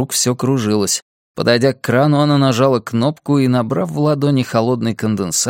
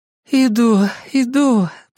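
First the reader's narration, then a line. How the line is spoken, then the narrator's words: Moaning. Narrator (Russian): простонала она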